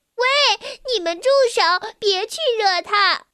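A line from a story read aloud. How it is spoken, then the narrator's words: Young witch shouting. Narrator (Chinese): 一模一样的小魔女也这样叫道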